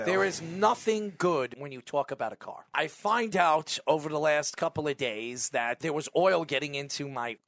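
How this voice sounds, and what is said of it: Hoarse, congested voice. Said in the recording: “I've been dealing with sinus infections, losing my voice”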